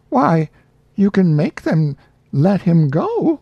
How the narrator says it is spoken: Abby cried out, distressed and impatient

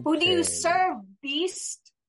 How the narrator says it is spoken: She shouts out

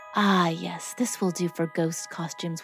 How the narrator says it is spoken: whispered Antone

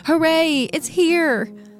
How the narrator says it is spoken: Nasubi is ecstatic, shouting

